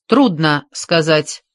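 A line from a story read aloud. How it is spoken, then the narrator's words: Plain. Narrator (Russian): ответил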